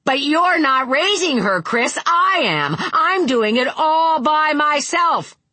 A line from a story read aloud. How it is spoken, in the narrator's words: Linda almost screamed, and Vic heard tears in her voice